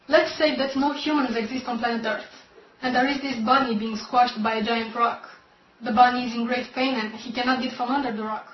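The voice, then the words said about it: Slavic accent. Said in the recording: “She's got that delicious Slavic accent”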